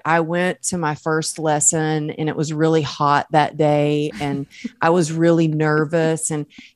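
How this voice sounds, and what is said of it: Southern American accent. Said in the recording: “I have not lost my accent... you can take the girl out of the South, but you can't take the South out of the girl”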